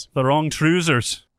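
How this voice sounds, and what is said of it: Attempted Scottish accent. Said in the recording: “There's my Scottish accent. That's the best I've got.”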